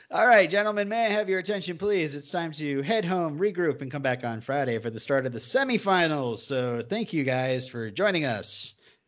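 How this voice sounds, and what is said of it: Announcer voice. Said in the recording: “I'm trying to do it in my announcer voice.”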